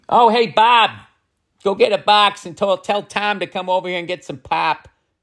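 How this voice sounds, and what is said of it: Rough put-on Midwestern accent. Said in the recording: “Do a Midwestern one ... I mean, I feel like it needs work ... That wasn't even Chicago. That was Milwaukee. No, I can't do a Midwestern accent.”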